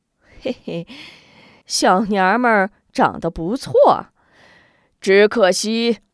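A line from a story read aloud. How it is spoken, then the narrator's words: Lewd leering laugh. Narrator (Chinese): 边豪 面露淫笑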